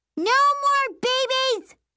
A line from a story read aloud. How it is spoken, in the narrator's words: Prissy screams at the top of her lungs